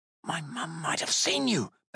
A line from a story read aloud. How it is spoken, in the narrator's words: Bab whispered sharply